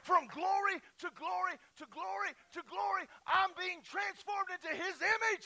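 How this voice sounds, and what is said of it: Shouting loudly, excited preaching. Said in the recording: “I'm shouting a lot, and I'm not trying to shout so much, but I can't help it.”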